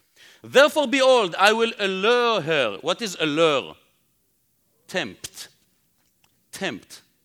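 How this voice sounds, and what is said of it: Speaker's own foreign accent. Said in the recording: “Bear with me with my accent”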